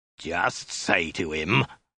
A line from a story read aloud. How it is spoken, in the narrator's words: snarled again